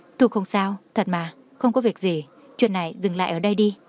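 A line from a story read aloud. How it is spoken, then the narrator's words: Forced smile, pleading quietly. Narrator (Vietnamese): Đường Khả Hinh miễn cưỡng nặn ra nụ cười, ánh mắt lộ ra van xin, nuốt một ngụm nước bọt, nhỏ giọng nói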